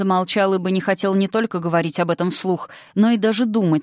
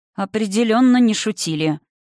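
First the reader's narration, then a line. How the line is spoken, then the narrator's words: Grim confirmation. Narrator (Russian): мрачно подтвердил Дирвус Блумарин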